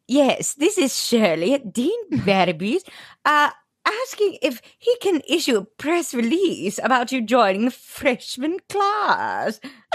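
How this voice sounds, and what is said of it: Mrs. Doubtfire-style voice impression. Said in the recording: “has a completely different speaking voice now. It sounded like my husband, Jeff, doing an impression of Mrs. Doubtfire through the phone.”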